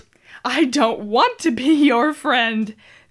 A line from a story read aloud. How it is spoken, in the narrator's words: the realtor whined